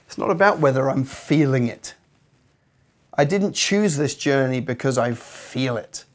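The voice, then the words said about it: Scratchy voice. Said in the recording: “I don't feel the best today. My voice is a bit scratchy. I sound like I'm something.”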